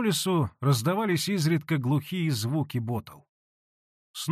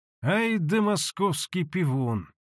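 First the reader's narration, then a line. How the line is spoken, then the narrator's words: Grumbling through gritted teeth. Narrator (Russian): проворчал он сквозь зубы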